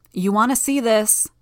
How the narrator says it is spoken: I called out

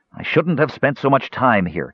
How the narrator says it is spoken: spat out angrily, his mood instantly dark

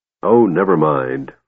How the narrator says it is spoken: Flint grumbled

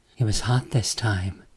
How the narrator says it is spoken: Summer says in a hushed whisper

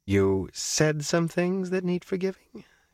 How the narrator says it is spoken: she said sweetly

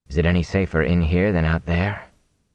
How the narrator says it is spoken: Rand said softly

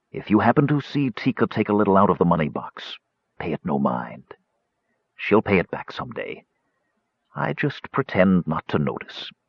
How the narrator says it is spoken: he said in a whisper

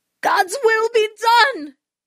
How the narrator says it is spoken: shrieks

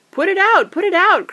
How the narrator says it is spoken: cried Merry

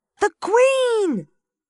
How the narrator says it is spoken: one of them called out

